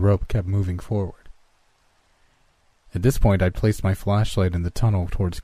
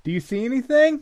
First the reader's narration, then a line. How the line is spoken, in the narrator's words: I called out